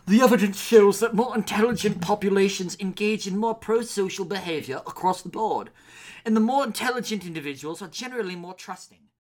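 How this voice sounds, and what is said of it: British accent. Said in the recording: “with a British accent”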